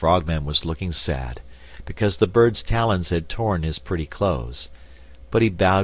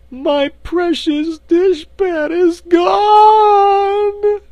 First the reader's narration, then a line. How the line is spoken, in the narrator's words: she wailed